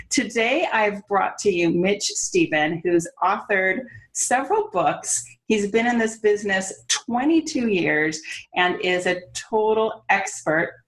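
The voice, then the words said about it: California accent. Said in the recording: “There's my California accent”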